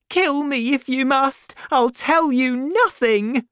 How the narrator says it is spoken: she cried

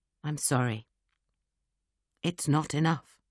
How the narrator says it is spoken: he said very quietly

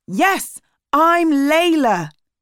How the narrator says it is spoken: she said loudly

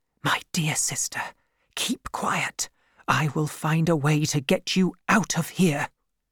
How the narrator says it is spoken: whispered to her

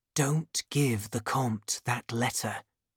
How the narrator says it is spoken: whispered

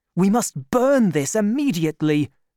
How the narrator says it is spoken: cried D'Artagnan

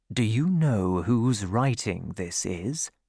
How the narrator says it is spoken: asked quietly

